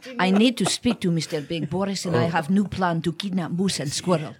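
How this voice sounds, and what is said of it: Natasha from Bullwinkle accent. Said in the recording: “do your accent. ... My accent. ... she is Natasha. ... From Bullwinkle.”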